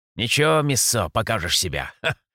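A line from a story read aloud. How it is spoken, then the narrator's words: Big man's chuckle. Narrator (Russian): хохотнул наш здоровяк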